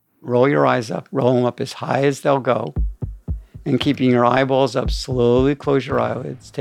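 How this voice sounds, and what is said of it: Usual voice. Nothing is said of it.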